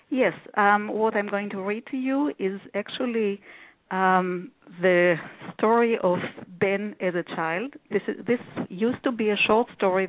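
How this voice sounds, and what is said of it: Israeli accent. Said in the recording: “Originally, I was born in Israel, and I came here about 30 years ago. The accent is still fresh.”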